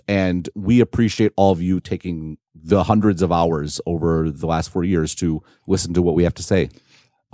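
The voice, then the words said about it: Australian accent, somewhat mixed. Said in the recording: “an Australian accent ... Who knows what it is now? It's been all over the place.”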